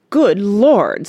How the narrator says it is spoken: said, and choked on his coffee

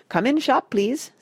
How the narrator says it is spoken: said Sai Fong

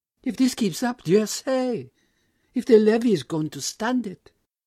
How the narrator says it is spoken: exclaimed

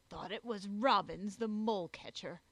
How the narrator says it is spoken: growled Jog

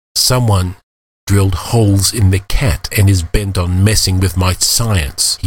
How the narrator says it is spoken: he snarled

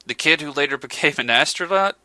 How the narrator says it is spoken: exclaimed McBride with a fond smile

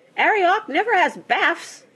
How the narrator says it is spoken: she squeaked

